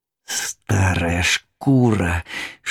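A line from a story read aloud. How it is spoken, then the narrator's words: Hissing enraged old man. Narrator (Russian): шипел дед багровый, как уголь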